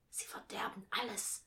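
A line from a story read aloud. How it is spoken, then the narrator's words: Whispered. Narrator (German): flüsterte Alice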